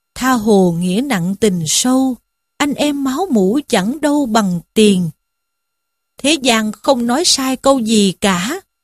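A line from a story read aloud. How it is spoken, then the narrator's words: Sighing lament to himself. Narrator (Vietnamese): Lâm Xung thấy thế thì thở dài, than một mình rằng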